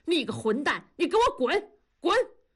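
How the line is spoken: Furious roar. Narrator (Chinese): 同志跳着脚吼

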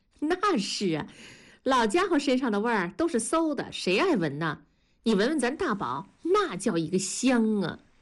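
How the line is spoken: Sudden cackling laugh. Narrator (Chinese): 文丽突然嘎嘎地笑了

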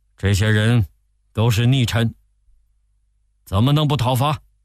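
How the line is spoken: Angry. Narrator (Chinese): 曹操愤怒地说

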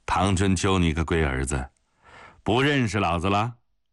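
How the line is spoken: Hearty laughing. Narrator (Chinese): 老头子哈哈一笑

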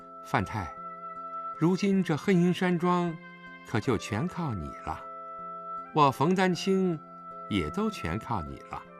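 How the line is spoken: Soft, flirtatious. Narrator (Chinese): 冯丹青 脸上飞起一抹妩媚的春色，柔声道

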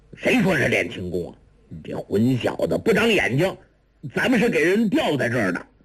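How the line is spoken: Angry. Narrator (Chinese): 钱青剑怒道

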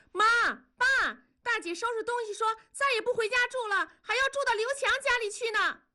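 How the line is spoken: Man shouting. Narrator (Chinese): 男方喊道

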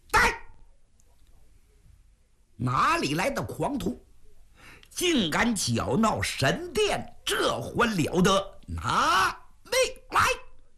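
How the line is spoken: Loud shout. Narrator (Chinese): 高声喊喝

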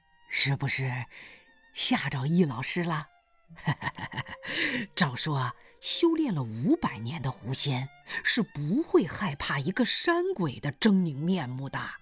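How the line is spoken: Smiling. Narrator (Chinese): 大胡子冲他笑笑说

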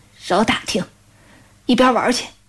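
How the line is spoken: Hoarse restrained rebuke. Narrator (Chinese): 他妈 忍了忍，哑声喝道

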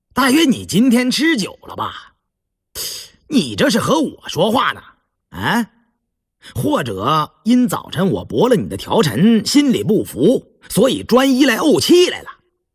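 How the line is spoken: Angry sneer after pause. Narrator (Chinese): 胤禛听了气得脸通红，半晌方冷笑

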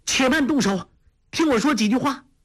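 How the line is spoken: Repeated urgent calling. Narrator (Chinese): 黄蓉连叫

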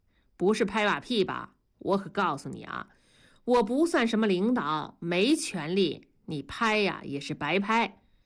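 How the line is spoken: Chuckling, good-natured. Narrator (Chinese): 同志笑呵呵地说

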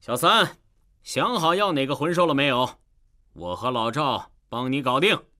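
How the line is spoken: Loud question. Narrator (Chinese): 弗兰德大声向唐三问道

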